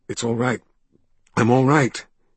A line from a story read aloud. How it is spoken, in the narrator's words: he managed in a hoarse voice